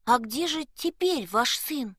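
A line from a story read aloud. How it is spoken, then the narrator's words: Timid question. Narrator (Russian): робко спросил Якоб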